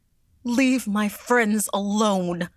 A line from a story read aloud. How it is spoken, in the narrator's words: she cried